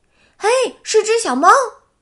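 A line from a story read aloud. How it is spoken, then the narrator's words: Exclaiming. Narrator (Chinese): 佩吉叫道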